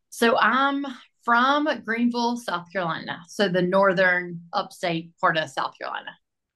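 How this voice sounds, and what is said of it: Southern US South Carolina accent. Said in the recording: “you've got a southern accent, I would say. A South Carolina.”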